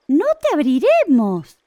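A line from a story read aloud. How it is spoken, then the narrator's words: Exclaimed together. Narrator (Spanish): exclamaron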